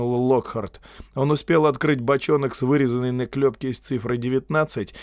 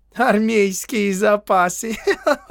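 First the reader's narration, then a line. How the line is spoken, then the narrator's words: Laughing. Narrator (Russian): рассмеялся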